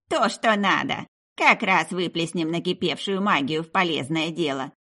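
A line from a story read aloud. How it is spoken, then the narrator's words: Grumbling. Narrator (Russian): подруга лишь проворчала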